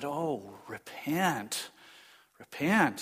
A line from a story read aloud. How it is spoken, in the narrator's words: gently as I could, I turned around and said